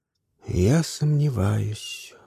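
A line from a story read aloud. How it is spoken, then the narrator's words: Thoughtful. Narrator (Russian): задумчиво сказала она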